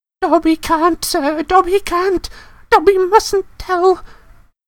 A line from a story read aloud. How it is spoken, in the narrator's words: squealed the elf